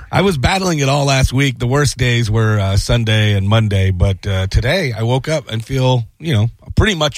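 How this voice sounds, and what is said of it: Hoarse, nearly lost voice. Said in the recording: “my voice is gone, dude ... I've been battling a sickness”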